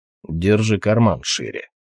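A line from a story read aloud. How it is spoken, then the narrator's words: Grumble. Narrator (Russian): проворчал Толгрим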